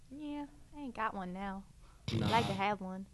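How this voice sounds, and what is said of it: Put-on country girl accent. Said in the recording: “Where'd that accent come from? ... she was a country girl just then.”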